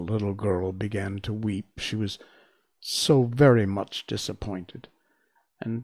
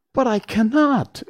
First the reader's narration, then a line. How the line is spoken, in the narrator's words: exclaimed Dorothy, greatly surprised